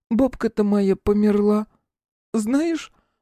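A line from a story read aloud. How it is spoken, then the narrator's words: Sobbing woman. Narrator (Russian): всхлипнув, произнесла она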